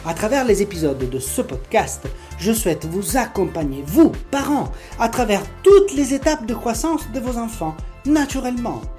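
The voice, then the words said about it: Strong Italian accent. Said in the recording (French): “vous trouverez un accent italien bien marqué.”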